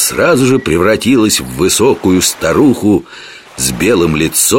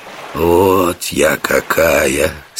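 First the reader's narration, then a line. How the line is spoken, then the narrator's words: Hoarse. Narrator (Russian): сказала смерть хрипло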